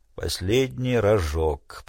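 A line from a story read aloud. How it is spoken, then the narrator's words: Grumbling. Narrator (Russian): проворчал он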